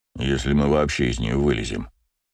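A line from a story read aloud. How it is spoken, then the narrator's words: Grumbled. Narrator (Russian): проворчал Браво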